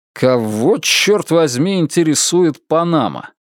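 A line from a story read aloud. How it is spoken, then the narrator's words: Irritated question. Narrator (Russian): спрашиваю раздраженным тоном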